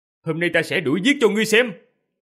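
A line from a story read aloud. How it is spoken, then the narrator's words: Shout. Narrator (Vietnamese): Diệp Phàm quát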